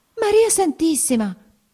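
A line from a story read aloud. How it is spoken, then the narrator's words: Exclaimed. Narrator (Italian): esclamò ella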